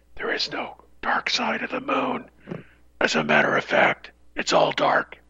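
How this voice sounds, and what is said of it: Creepy whispered impression. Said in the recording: “my impersonation of slippers when he whispers. Boy, that is creepy.”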